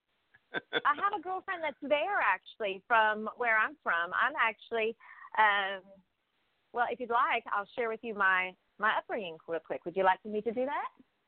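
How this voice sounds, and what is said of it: Southern US accent. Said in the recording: “I'm trying to get your accent in here. Were you down here in the South?”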